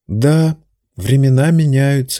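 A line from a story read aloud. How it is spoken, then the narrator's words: Soft repeat. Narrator (Russian): мягко повторил Уизби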